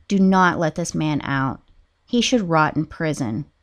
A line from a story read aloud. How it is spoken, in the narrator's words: she begged the court